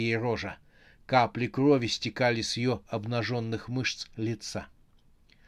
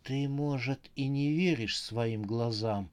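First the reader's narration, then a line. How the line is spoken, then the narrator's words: Trembling voice. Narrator (Russian): сказала Рожа дрожащим голосом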